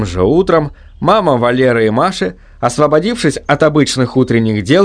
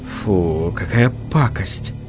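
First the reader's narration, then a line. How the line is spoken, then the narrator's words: Disgusted mutter, woman. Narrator (Russian): пробормотала мама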